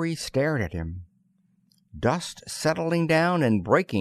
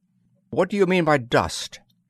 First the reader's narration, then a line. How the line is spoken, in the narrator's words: demanded Murphy sharply